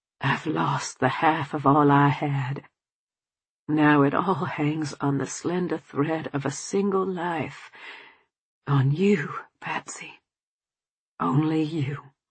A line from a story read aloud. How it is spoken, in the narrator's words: my father clutched at me by the fireplace, murmuring